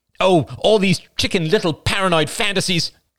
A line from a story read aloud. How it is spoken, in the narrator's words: cried Rachel recklessly